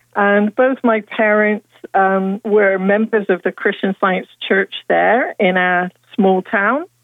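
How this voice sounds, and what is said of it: British accent. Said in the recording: “I grew up in the United Kingdom. You can probably hear that in my voice.”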